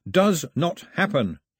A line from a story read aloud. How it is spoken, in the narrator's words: shouted